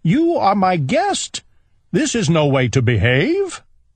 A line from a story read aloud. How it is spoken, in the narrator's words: cried Owl